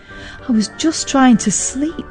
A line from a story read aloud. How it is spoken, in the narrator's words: Mum mumbled